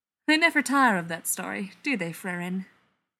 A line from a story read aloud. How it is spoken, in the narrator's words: asks merrily